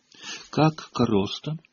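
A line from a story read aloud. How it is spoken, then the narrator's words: Timid question. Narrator (Russian): робко спросила Гермиона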